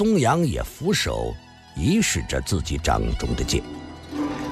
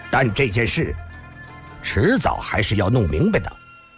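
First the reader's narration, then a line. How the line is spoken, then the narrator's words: Loud, excited. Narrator (Chinese): 郭松阳…他灰色的脸上似已起了种激动的红晕，大声地说道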